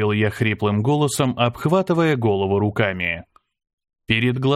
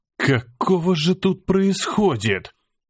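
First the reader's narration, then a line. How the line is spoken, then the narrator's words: Weak breathless exhale. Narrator (Russian): Выдохнул я, чувствуя, как ноги снова подкашиваются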